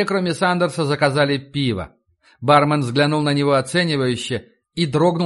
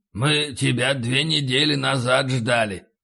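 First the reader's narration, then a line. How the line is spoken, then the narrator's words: Hoarse, matter-of-fact. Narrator (Russian): В его хриплом голосе не было досады, просто констатация факта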